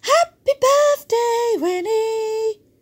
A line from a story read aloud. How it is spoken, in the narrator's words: shouted